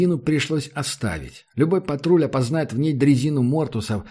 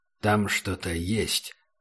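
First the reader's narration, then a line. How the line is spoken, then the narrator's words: Said quietly. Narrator (Russian): сказал Убер негромко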